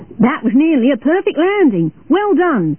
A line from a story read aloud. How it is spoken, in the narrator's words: shouted the control tower